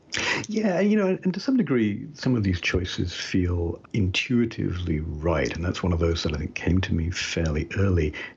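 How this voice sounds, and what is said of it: Slight residual British accent. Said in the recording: “as you can tell a little bit still from my accent, I was born and brought up in Britain ... some residual Britishness”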